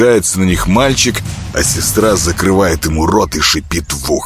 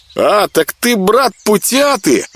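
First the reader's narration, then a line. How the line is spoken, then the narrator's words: Joyful children's shout. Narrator (Russian): обрадованно крикнули школьники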